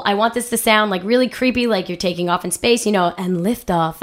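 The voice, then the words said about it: Hoarse voice. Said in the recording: “that's why I'm hoarse... because I've been doing like 6-hour rehearsals for 2 weeks with 40 high school girls in a very noisy auditorium”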